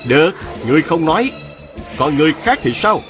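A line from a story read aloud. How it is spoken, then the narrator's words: Sharp shout. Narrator (Vietnamese): Viên Thừa Chí quát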